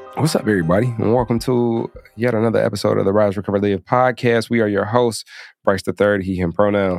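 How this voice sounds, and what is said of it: Sexy smooth podcast host voice. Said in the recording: “That's my sexy podcast voice.”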